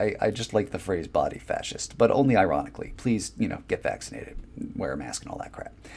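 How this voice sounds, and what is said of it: Usual voice. Nothing is said of it.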